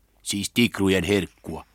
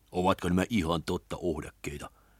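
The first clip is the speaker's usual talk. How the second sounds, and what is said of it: Whispered line. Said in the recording (Finnish): “kuiskasi”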